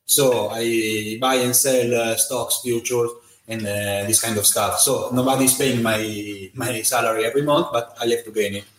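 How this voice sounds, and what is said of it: Italian-accented English. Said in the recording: “I'm Italian. You can hear my accent”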